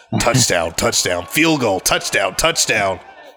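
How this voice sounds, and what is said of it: Epic announcer-style voice. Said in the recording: “do the epic ... voice.”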